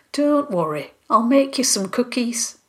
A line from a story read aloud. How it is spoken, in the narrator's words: Molly said kindly